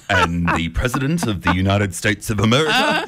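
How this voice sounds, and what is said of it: Formal TV news anchor voice. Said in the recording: “I was doing my best ABC impersonation that day.”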